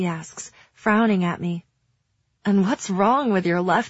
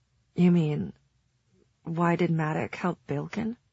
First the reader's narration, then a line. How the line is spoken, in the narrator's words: She says, lowering her voice